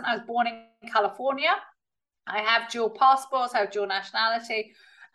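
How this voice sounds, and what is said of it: Very British accent. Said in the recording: “I've got a very British accent”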